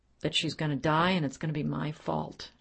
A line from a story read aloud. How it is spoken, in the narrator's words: she muttered quietly